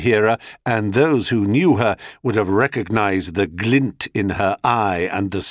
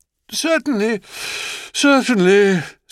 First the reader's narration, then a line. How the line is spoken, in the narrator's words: said Zeus, affecting a yawn